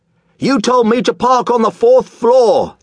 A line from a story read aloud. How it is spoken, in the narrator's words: the man screamed